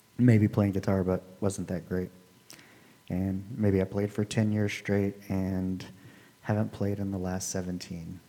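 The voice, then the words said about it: Slightly raspy, soothing voice. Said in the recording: “he has a soothing voice ... It's easy to listen to ... It's relaxing a little bit ... My voice isn't great. It's a little raspy. It's a little off-putting”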